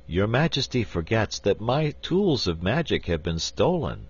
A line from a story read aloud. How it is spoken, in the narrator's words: said the wizard sadly